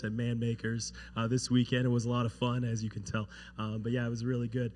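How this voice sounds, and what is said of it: Hoarse, partly lost voice. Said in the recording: “As you can probably tell, my voice sounds a little bit different. Getting over a little cold and lost my voice”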